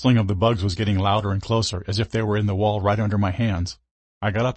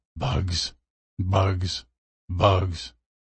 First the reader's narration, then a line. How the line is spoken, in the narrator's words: the man mumbling